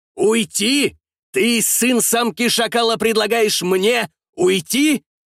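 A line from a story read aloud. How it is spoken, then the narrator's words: Angry shout. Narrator (Russian): выкрикнул турецкий военачальник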